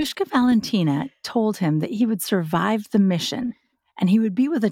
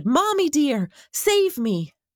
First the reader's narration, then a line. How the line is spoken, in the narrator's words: jumping into the darkness was scary, and he shouted